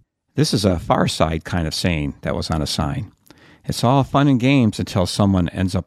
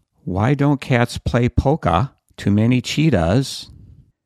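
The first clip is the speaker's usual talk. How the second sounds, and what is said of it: Exaggerated Maine accent. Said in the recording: “I'm going to try to do this with my worst Maine accent.”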